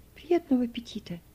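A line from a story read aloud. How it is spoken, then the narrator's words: Quiet. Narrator (Russian): она тихо сказала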